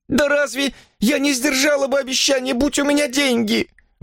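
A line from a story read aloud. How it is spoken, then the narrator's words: Exclaimed. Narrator (Russian): воскликнула она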